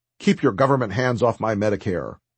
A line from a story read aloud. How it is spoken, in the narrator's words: A man stood up and angrily demanded